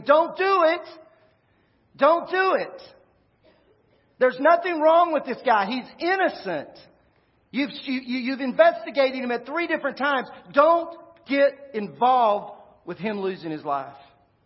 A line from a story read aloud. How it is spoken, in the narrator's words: Everything inside of Pilate is screaming